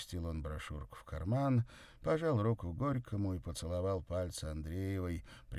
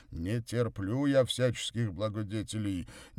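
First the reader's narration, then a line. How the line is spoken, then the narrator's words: Angry deep bass. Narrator (Russian): сердито пробасил Горький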